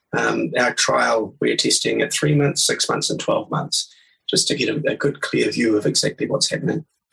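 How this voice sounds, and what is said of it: Speaks with a noticeable accent. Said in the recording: “we love your accent”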